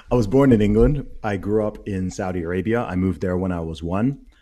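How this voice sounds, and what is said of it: American accent. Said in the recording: “You you speak with an American accent”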